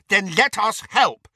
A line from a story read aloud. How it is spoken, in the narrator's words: said Neville angrily